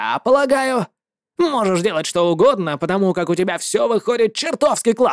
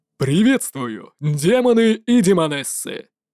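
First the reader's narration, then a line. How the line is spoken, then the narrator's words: Clear, well-trained voice. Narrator (Russian): заявил он ясным, четко поставленным голосом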